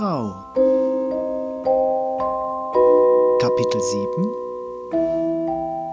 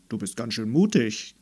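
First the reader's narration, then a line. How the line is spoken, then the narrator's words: Deep creaking voice. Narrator (German): knarrte der Holzfußboden mit tiefer Stimme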